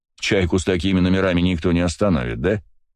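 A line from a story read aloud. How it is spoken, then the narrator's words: Grunt. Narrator (Russian): хмыкнул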